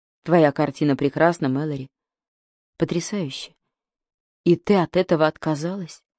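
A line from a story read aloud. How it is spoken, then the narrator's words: Quiet. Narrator (Russian): тихо сказал Флин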